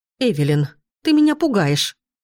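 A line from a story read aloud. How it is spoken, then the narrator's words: Exclaiming. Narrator (Russian): воскликнула мать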